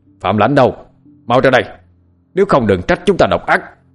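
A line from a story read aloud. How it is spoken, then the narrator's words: Man shouting from outside. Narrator (Vietnamese): tiếng của một người đàn ông hét lớn ở bên ngoài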